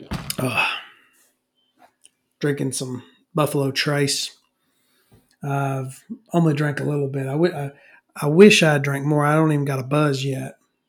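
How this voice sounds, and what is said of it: Voice fading, slightly hoarse. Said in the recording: “My voice is a little bit going out.”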